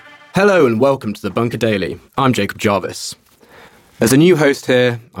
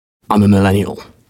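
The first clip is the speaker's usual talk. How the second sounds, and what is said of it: Whispered aside. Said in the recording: “I'll whisper this one.”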